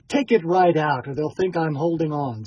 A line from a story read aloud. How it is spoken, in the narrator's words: said Dolokhov